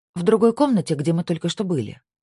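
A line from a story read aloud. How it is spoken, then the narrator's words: Quick interjection. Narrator (Russian): быстро вставила Сабина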